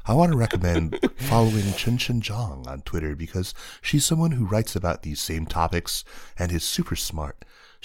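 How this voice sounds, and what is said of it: Public radio announcer voice. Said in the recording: “in my best NPR, in my best NPR announcer voice”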